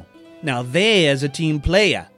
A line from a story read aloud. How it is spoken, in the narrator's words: he said in a mock rapper accent